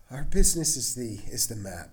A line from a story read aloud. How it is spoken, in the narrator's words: sighed the taxi driver